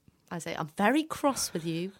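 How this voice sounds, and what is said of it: Stern teacher voice. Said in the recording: “That's your teacher voice.”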